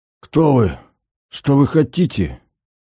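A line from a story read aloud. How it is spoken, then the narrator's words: Desperate, strained. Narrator (Russian): выдавил он в отчаянии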